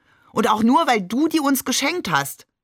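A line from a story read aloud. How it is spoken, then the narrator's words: Called out. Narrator (German): rief Shakir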